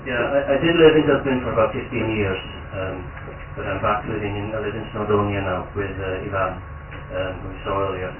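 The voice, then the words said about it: Accent close to Cork accent. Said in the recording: “you might have to really tune your head to my accent, you know? But it's not far off the Cork accent”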